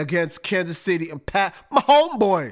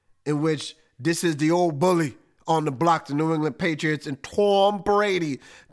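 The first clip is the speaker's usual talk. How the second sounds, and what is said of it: Weak put-on Boston accent. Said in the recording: “That's my Boston accent. I know it's whack, but I'm trying.”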